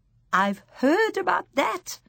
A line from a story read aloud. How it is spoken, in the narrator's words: my grandmother cried out excitedly